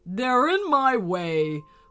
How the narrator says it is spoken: boomed the dragon

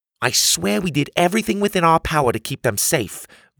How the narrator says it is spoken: Grandma piped in

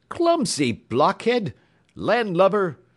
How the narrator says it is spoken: cried Mr

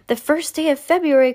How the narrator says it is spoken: cried Mrs

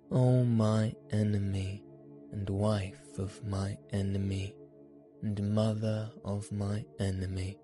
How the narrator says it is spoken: said the cat

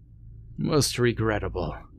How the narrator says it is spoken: sighed

